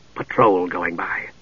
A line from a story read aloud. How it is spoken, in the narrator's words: Steele whispered back